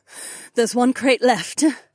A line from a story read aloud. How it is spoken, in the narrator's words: Kat panted